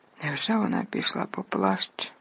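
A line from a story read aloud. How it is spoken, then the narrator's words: Mumbled. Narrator (Ukrainian): пробурмотів Рон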